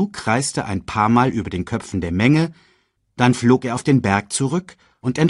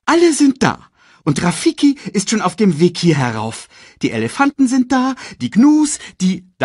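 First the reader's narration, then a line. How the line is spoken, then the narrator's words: Excited report. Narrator (German): berichtete er aufgeregt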